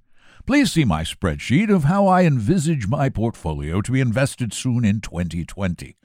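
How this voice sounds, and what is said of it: Put-on British accent. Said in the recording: “Should I do it with a British accent? ... It probably was the wrong accent anyway.”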